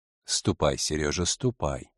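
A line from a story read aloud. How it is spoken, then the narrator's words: Even softer repetition. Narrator (Russian): еще более мягко повторил хозяин яхты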